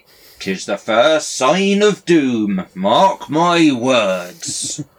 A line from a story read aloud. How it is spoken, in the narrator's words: others grumbled sourly